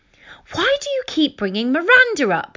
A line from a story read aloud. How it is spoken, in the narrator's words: yelled impatiently